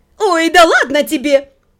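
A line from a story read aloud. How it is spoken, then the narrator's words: Melodic laughing. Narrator (Russian): Джемма мелодично рассмеялась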